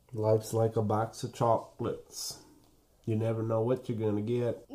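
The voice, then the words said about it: Imitates a film character's voice. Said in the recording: “That was a great impression.”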